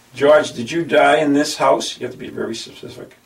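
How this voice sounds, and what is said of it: Speaks with a noticeable accent. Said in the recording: “Are you making fun of my accent?”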